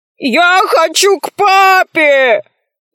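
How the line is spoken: Shouted. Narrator (Russian): закричал Арамозик

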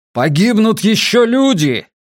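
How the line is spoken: Shouting. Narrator (Russian): крикнул Йона

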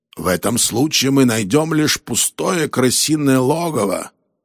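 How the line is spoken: Grumbling. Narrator (Russian): проворчал Роллинс

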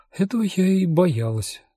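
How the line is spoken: Sighing. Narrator (Russian): вздохнула она

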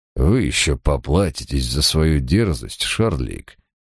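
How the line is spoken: Barely audible hiss. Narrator (Russian): едва слышно прошипел он

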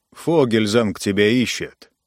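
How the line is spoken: Grumbled. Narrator (Russian): проворчал Эл

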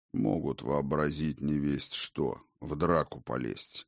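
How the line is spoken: Reluctant mutter. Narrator (Russian): Словно нехотя буркнул отец дружин

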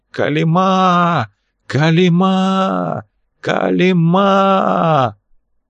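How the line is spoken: Hoarse cry. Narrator (Russian): Комнату прорезал хриплый крик

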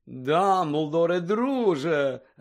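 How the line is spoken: Joyful. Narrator (Ukrainian): радісно промовив

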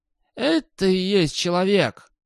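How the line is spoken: Growl. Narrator (Russian): прорычал господ

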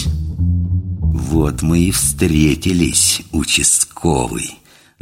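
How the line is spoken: Gloating through clenched teeth. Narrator (Russian): злорадно процедил сквозь зубы самый высокий

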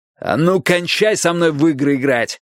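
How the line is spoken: Angry shout. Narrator (Russian): заорал Страйк

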